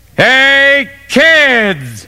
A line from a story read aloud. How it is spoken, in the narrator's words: Dad yelled